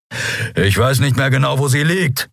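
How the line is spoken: Growled. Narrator (German): knurrte er

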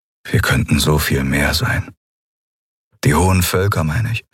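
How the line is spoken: Sad voice. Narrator (German): klang traurig, als er sagte

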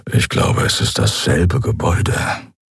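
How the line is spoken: Quiet grumble. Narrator (German): brummte Keru leise

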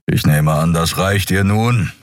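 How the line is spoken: Impatient growl. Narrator (German): knurrte Keru ungeduldig

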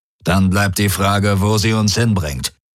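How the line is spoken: Growled. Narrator (German): knurrte Darajos

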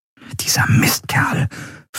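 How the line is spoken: Whisper. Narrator (German): flüsterte Andriel

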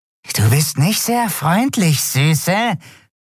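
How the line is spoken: Hissed. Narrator (German): zischte es

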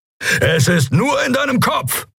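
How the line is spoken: Calling out. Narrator (German): rief er

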